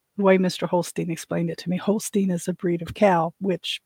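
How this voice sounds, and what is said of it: Slightly hoarse voice. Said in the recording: “still a little hoarse. A little horsey.”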